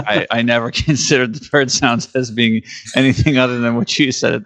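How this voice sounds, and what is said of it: Usual voice. Nothing is said of it.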